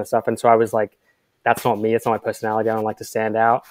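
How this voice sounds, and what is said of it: Transatlantic hybrid accent, somewhat Australian-sounding. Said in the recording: “accent to kind of what it is now, which is like a transatlantic hybrid kind of mess, which sounds, some people think it sounds like Australian”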